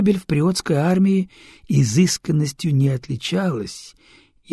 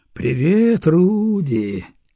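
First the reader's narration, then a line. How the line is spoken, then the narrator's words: Snorting. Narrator (Russian): хмыкнул Гатов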